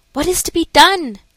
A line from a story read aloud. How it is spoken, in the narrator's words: she kept exclaiming